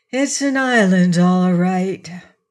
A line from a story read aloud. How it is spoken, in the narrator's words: said Trot with a sigh